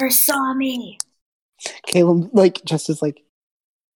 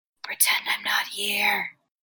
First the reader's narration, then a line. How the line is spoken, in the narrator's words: He whispers